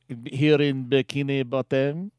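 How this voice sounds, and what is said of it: Cartoon narrator accent. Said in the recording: “the narrator from SpongeBob SquarePants ... this accent”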